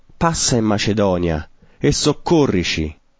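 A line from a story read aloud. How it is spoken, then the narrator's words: Man pleading. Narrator (Italian): un uomo macedone che lo supplicava e diceva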